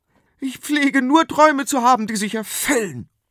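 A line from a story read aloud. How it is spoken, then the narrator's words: Queen hissing angrily. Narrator (German): fauchte die Königin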